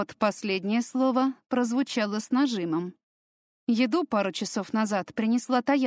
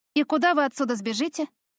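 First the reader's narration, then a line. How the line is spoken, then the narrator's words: Exasperated snap. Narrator (Russian): Я не выдержала и огрызнулась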